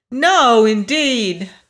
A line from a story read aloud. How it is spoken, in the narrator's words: cried Dorothy